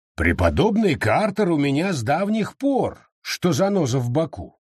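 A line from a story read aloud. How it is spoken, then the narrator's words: Plain. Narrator (Russian): сказал лорд Мэнсфилд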